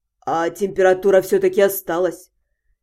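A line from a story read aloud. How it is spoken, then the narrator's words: Indistinct grumble. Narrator (Russian): Невнятно пробурчал он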